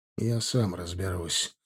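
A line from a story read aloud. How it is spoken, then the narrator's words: Sinister voice. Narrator (Russian): сказал он зловещим голосом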